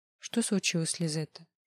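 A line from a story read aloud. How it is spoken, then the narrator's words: Detached inquiry. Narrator (Russian): Отрешенным голосом поинтересовалась Мура у подоспевшей подруги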